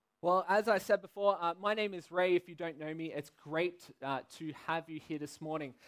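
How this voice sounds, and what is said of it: Australian accent. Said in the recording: “if you don't recognize my accent, I am from uh, the beautiful city and country. I'm from Sydney, Australia”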